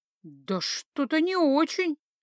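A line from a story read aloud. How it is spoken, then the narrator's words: Uncertain bleat. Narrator (Russian): неуверенно проблеяла я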